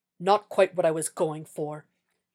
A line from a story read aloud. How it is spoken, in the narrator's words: Jack said tightly